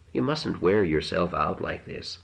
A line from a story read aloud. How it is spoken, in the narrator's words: she murmured